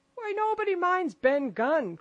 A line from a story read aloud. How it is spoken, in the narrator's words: cried Mary